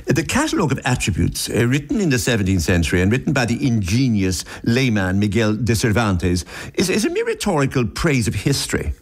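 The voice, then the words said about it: Put-on authoritative English accent. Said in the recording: “if you read this in an English accent”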